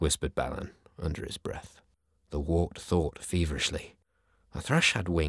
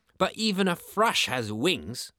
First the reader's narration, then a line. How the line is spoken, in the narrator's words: cried the kestrel, speaking for the first time in his sharp beaked alarm